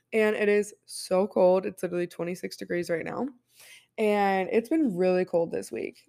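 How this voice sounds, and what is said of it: Hoarse, sick-sounding voice. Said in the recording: “I've also been sick this week. If you cannot tell, I'm sure my voice sounds very hoarse. ... I've been coughing my lungs out”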